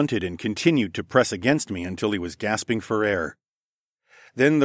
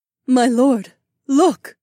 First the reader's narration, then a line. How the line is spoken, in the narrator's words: Aliona breathed